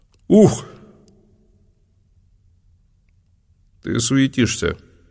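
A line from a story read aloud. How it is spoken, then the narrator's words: Calm remark. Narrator (Russian): спокойно заметил Ануон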